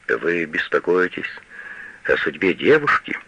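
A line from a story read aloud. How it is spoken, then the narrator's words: Soft question. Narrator (Russian): мягко спрашивает фон Штудман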